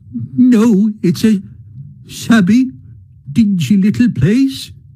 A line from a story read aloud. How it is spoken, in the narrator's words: he sobbed forth at last, brokenly